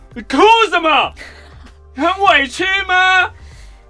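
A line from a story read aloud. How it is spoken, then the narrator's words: Angry roar. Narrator (Chinese): 店长又大吼说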